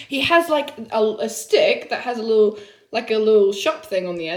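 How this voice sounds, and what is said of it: English accent. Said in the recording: “I couldn't understand because of your English accent.”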